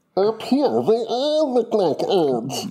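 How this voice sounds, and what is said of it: Impression of Bug's Life character. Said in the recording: “Bug's Life. ... Another great impression.”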